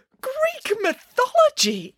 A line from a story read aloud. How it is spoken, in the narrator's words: exclaimed Nanny Piggins